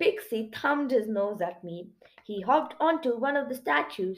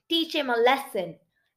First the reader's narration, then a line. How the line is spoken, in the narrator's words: they shouted